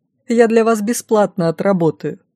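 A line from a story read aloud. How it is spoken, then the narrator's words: Coaxing while laughing. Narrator (Russian): уговаривала, смеясь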